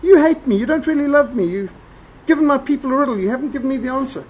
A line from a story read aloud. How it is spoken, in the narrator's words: Samson's wife sobbing